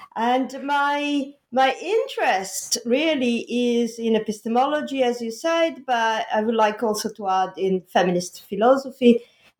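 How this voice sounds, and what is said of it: Italian accent. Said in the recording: “I'm Italian, and the Italian accent,”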